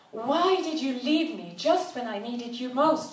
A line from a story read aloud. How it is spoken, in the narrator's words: she almost shouted